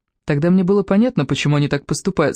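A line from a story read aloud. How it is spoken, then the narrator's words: Plain. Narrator (Russian): сказал Сим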